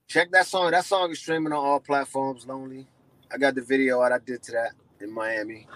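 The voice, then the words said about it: Slightly hoarse voice. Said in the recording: “I sound a little hoarse right now”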